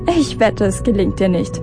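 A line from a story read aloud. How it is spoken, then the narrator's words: Mocking with laughter. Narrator (German): spottete Madge und lachte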